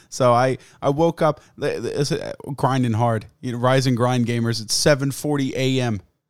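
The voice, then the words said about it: Hoarse, fading voice. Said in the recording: “I'm losing my voice again ... this thing's going to be raggedy as fuck”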